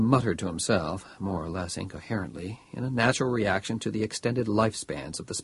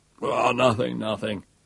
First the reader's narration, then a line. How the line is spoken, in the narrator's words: said Bailey irritably